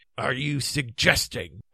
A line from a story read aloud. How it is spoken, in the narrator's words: asked Sir Grummor coldly